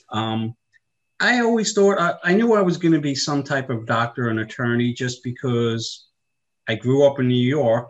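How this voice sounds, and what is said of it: Long Island New York accent. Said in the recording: “I grew up in New York on Long Island, in case you can't tell from the accent.”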